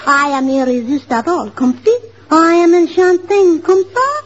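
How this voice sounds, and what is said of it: Put-on French accent. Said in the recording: “she does it with the French accent”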